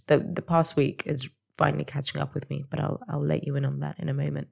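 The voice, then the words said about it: Raspy voice. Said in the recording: “forgive my raspy but very sexy voice.”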